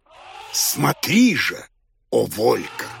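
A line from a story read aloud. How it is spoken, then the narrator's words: Shouting over noise. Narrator (Russian): воскликнул Хоттабыч, стараясь перекричать гам, стоявший за окном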